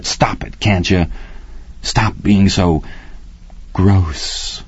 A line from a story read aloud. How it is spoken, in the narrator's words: he whispered